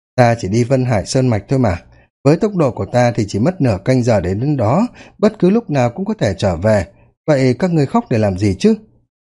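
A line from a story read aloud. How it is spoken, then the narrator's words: Laughing. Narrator (Vietnamese): cười nói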